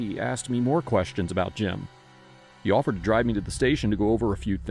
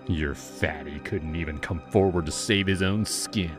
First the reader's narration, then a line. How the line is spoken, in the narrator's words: sneered